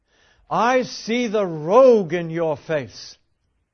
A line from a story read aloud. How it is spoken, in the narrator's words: he cried